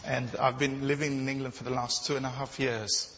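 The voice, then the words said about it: Non-English accent. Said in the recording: “you probably would tell, the visitors would tell from my accent that I'm not English”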